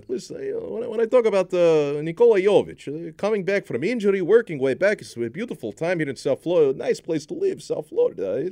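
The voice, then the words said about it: Put-on Eastern European Russian-style accent. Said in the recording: “my Russian accent, it applies to every Russian person. It also applies to Slovenians ... Same accent ... Also, the accent ... one accent for all Eastern Europeans ... It's my Balkan”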